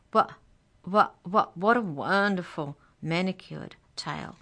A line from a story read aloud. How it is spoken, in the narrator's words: he stammers